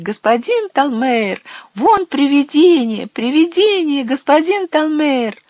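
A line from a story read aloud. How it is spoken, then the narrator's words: Children shrieking and shouting. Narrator (Russian): Когда дети увидели его, девочки начали визжать, а мальчики закричали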